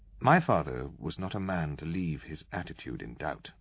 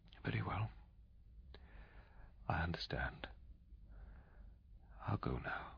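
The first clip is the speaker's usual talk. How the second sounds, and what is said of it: Flat, lifeless voice. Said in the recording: “in a dead voice”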